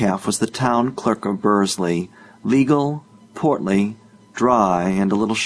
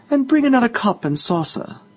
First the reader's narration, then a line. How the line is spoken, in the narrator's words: said the Deputy Mayor sweetly